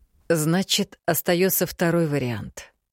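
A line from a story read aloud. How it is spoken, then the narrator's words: Heavy sigh. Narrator (Russian): немного тяжело вздохнул Мракьян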